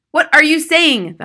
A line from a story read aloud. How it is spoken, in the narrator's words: the husband cried